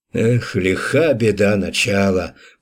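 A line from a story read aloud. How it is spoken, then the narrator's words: Encouraging, through gritted teeth. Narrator (Russian): процедил Радомысл, ободряя десяток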